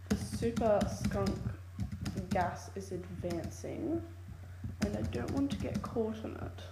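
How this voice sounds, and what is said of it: Odd put-on accent. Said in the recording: “Sorry, don't mind my accent. That was weird.”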